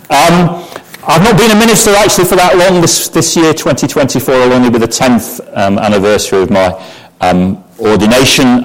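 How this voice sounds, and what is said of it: Northern English Lancashire accent. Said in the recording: “I come originally from Bolton in Lancashire, so if the accent is a little impenetrable ... It tends to be Bath and Path rather than Bath and Path.”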